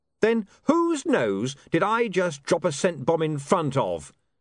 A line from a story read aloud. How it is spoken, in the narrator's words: said William triumphantly